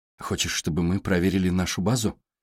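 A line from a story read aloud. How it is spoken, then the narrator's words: Plain. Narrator (Russian): спросила Джейн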